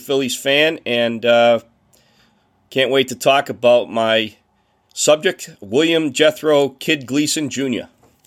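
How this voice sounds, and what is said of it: Boston accent. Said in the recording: “that accent, which I love. That sounds pretty Boston-like ... my Boston accent”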